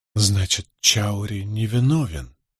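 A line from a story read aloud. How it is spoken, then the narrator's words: Muttering. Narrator (Russian): пробормотала она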